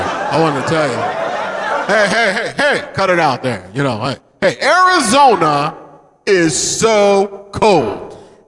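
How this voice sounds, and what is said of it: Rodney Dangerfield impression. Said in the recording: “Rodney Dangerfield ... doing the stupid voice”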